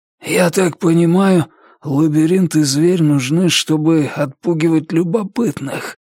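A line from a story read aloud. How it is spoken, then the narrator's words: Hoarse rasp. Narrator (Russian): прохрипел маркиз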